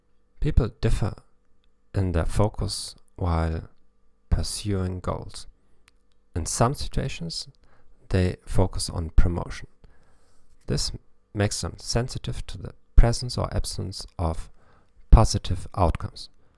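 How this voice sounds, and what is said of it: German-accented English. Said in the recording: “the only psychology podcast in the world in English with a German accent”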